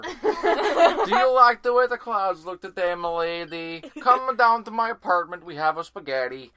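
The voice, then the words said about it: Swedish chef-like comic character voice. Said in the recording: “What is that voice? ... It sounds like a Swedish chef.”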